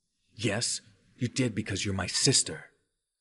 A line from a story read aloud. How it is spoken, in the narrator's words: snapped